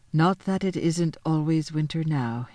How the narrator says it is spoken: he added gloomily

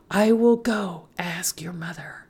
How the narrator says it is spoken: Esperanza whispered to her

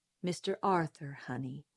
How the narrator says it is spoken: said Atticus, gently correcting me

